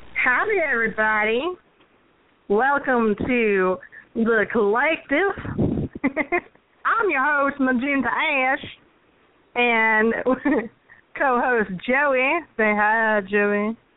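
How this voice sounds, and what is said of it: Bad put-on Southern accent. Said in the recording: “a southern, really bad southern accent”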